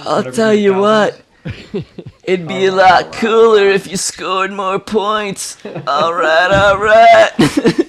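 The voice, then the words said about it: Texas accent celebrity impression. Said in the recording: “Matthew McConaughey with a Texas accent”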